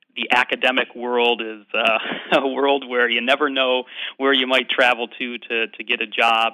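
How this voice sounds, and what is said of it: American Midwestern accent. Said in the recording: “you're American, as we can hear ... I'm definitely not Scottish. You can tell from my accent. I grew up in the Midwest, in the Chicago area.”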